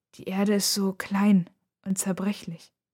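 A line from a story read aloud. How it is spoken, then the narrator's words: Quiet answer. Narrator (German): antwortet sie leise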